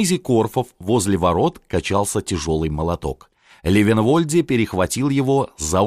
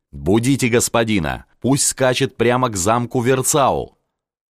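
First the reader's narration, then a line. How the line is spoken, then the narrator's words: Shout in ear. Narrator (Russian): в ухо ему крикнул Левенвольде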